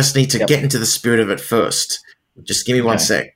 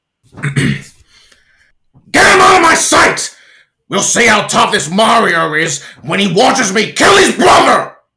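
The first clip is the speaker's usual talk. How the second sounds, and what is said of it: Loud, angry villain character voice. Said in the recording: “That's a great impression... It felt like it had a lot of anger... I hope I didn't cause too much damage to Mandy's eardrums”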